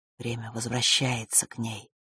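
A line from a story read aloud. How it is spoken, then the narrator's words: Quiet queen. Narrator (Russian): тихо произнесла черная королева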